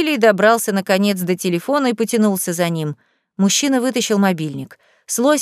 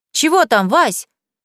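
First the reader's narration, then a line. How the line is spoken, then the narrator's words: Shouted. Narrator (Russian): крикнула Леся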